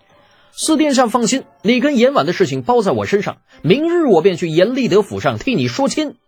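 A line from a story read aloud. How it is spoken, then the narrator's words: Angry, reckless shout. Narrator (Chinese): 越想越气之下，不管三七二十一，对着李泰的背影叫道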